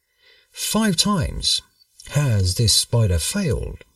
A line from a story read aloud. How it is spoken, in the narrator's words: said Bruce